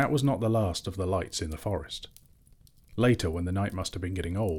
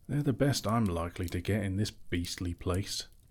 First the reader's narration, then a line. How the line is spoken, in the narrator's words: he muttered